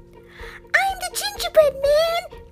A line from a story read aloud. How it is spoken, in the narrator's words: he yelled out